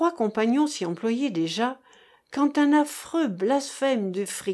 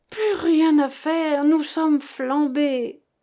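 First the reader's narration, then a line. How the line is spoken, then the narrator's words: Dismayed groan. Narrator (French): gémit le bêcheur consterné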